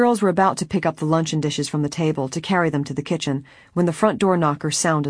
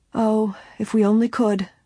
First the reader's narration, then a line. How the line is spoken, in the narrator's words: Miss Flora said, her voice a bit shaky